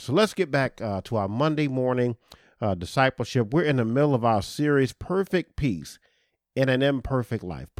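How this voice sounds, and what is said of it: Slightly congested voice from a cold. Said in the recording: “forgive me if you hear a little something in my voice. ... I have a little bit of a cold.”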